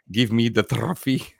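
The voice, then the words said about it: Put-on Spanish accent. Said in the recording (French): “c'est avec son accent espagnol”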